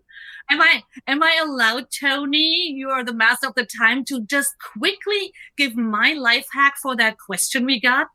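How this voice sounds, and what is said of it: Discernible non-native English accent. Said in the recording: “I'm the only one with a discernible accent that I'm not a native speaker of English”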